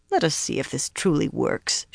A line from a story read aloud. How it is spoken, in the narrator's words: she muttered